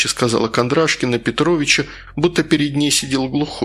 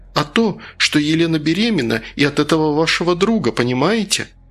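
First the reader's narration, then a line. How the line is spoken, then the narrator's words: Prompt question. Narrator (Russian): Королев тут же спросил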